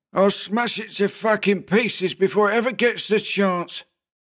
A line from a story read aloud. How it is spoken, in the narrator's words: Adenoid spat